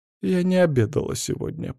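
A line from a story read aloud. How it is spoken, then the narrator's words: Mumbling. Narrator (Russian): промямлила Суви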